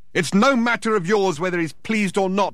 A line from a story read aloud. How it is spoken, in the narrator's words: shouted Thor, disturbing the foundations of the building once more